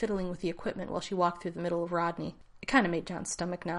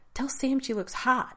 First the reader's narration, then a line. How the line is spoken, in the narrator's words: Rodney said earnestly